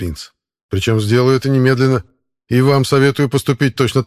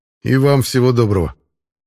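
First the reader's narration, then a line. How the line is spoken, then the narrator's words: Grumbling. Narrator (Russian): буркнул я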